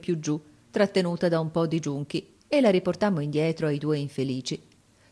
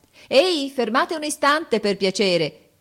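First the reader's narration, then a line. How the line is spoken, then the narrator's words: Cheerful shout. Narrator (Italian): grida allegramente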